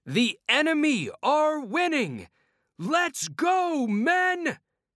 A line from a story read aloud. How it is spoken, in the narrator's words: shouted Arthur